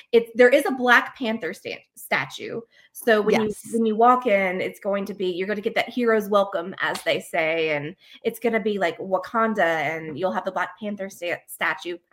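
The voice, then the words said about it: Noticeable regional accent. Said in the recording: “It's a cute little accent. You got your cute little accent.”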